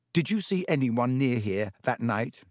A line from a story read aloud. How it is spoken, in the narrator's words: said Harry